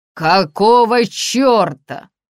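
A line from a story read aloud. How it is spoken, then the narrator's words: Roaring. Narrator (Russian): взревел полковник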